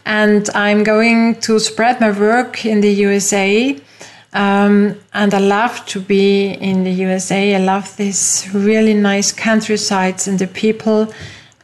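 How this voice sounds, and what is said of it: Austrian-accented English. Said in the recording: “We are two Austrians. You hear it from our accent.”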